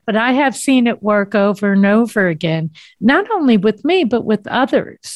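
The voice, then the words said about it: East Coast American accent. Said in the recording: “I'm from the East Coast, if nobody didn't know what that accent was.”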